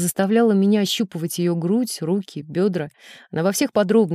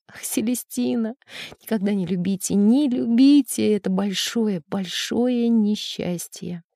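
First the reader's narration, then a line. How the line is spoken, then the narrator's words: Tearful muffled mumbling. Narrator (Russian): в слезах она бросалась на диван, прятала свою голову в подушку, чтобы заглушить рыдание, и бормотала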